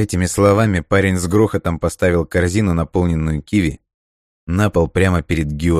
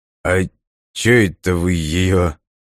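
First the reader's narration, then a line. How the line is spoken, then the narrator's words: Confused mumble. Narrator (Russian): растерянно пробормотал Лось, узнав знакомый гостинец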